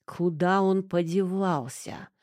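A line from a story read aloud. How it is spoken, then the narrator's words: Furious growling. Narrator (Russian): в ярости рычал Ложкин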